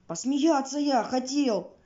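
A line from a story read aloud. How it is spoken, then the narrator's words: Yelling. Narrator (Russian): вопит мухомор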